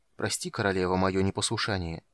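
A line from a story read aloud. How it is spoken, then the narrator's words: Quiet. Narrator (Russian): тихо проговорил Самар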